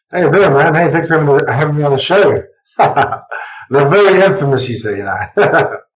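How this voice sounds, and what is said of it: A lovely accent. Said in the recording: “with a lovely accent”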